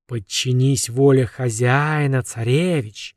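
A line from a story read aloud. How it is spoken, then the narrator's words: Monstrous hiss. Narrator (Russian): шипело ужасное существо, еще 5 минут назад бывшее Шамашем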